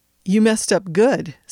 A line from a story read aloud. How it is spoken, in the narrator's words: said the boss